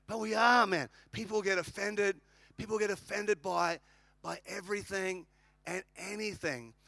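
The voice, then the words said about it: Australian accent. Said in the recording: “I'm an Australian.”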